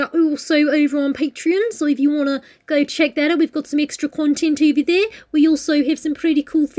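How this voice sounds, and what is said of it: Usual voice. Nothing is said of it.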